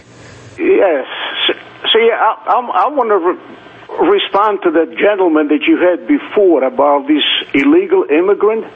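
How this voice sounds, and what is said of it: Slight foreign accent. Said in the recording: “It sounds like you have a bit of an accent.”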